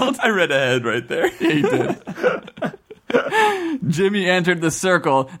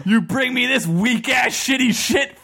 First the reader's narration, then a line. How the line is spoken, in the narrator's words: Falcon yelled